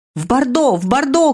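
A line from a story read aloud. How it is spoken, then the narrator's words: Shouting from a carriage. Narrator (Russian): кричала Нанона из кареты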